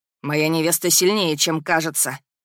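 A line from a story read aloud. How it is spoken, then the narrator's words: Impatient, through gritted teeth. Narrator (Russian): процедил принц, начиная терять терпение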